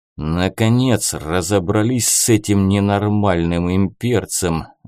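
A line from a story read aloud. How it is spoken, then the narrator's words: Relieved sigh. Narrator (Russian): вздохнул с облегчением Нор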